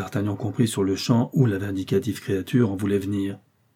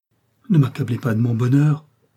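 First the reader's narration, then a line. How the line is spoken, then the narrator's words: Exclaimed. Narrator (French): s'écria D'Artagnan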